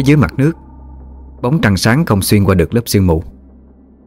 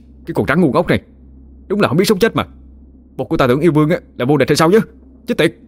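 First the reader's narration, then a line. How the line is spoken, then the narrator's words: Furious yell through gritted teeth. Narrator (Vietnamese): Khá cũng tái xám mặt mày, nghiến răng nghiến lợi, phẫn nộ mà hét lên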